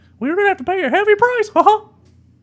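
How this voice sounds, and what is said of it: Mickey Mouse cartoon voice impression. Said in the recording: “Pretty good impersonation.”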